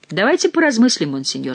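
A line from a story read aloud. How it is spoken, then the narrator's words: Laughing. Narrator (Russian): сказал он, в свою очередь смеясь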